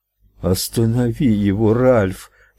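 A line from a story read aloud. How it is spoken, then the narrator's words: Moaning. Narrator (Russian): простонала Луиза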